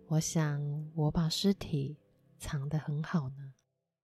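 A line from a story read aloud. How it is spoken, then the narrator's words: Soft, smiling, to herself. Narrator (Chinese): 那女人脸上带着微笑，轻声的对自己说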